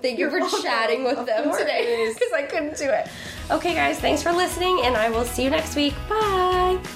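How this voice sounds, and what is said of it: Hoarse, fading voice. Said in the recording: “I'm over here losing my voice”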